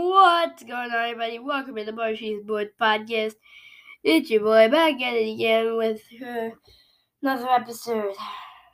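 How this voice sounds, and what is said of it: Hoarse, worn-out voice. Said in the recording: “My voice is still dead. And because of my coughing”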